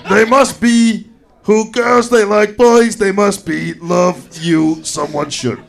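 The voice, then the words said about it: High-pitched Yoda-style character voice. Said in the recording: “your Yoda impersonation ... like Yoda who's had a helium, like, I feel sucked like out a helium balloon”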